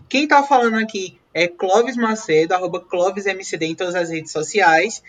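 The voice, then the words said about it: Northeastern Brazilian accent. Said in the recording (Portuguese): “Esse podcast com sotaque nordestino, com cara nordestina”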